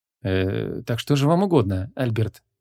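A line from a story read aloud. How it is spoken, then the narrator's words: Soft inquiry. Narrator (Russian): мягко осведомился Мао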